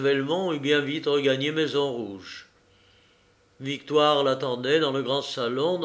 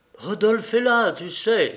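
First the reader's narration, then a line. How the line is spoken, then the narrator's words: Exclamation. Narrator (French): s'écria-t-elle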